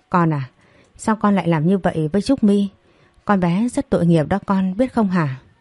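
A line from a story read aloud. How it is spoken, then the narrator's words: Resentful woman. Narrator (Vietnamese): Bà Thủy hậm hực, bà ta nói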